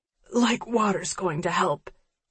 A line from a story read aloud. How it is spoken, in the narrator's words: she wheezes